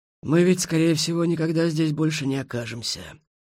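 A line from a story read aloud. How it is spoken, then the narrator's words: Suddenly sad. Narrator (Russian): неожиданно грустно сказал Хмель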